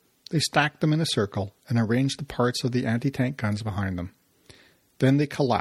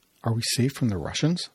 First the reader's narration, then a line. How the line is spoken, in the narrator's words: another private, Slavka, said in a low voice that Maurice could barely hear